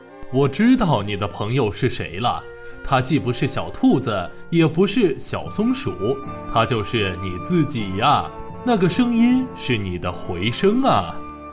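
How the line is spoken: Chuckling elephant father. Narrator (Chinese): 象爸爸呵呵笑了

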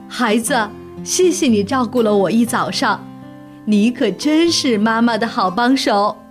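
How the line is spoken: Happy, smiling mother. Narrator (Chinese): 熊妈妈立刻高兴起来了，笑着对他说

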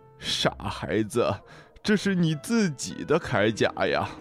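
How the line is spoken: Smiling, kindly. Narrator (Chinese): 海龟笑着说

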